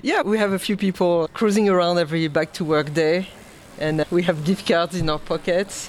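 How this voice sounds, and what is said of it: Genuine foreign accent, not Brooklyn. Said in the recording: “I don't think that's a Brooklyn accent ... the accent is perfect for that jersey ... It's not fake.”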